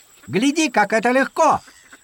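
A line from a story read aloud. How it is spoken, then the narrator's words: Shout. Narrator (Russian): крикнул Даки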